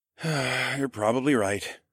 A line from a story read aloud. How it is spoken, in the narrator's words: I sighed